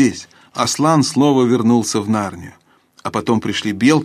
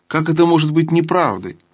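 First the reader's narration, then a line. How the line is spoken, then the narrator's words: King's exclamation. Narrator (Russian): воскликнул король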